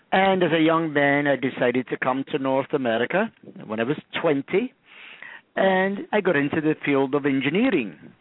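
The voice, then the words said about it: Slight Scottish accent. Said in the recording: “I do have a little bit of a Scottish accent... you're speaking Scottish”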